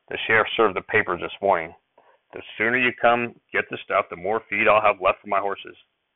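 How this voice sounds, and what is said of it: Discouraged tone. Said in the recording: “in a discouraged voice”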